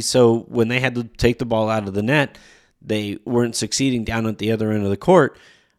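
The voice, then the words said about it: Voice sounds sick, still recovering. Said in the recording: “as you can probably hear from my voice, it is still recovering from the bug”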